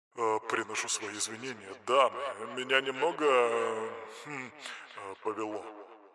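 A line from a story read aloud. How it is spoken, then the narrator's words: Mumbled. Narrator (Russian): пробормотал он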